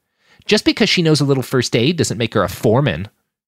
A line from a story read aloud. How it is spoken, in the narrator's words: she sneered